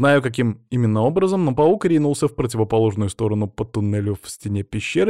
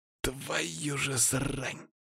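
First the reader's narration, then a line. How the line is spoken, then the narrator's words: Whispered curse. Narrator (Russian): шепотом выругался он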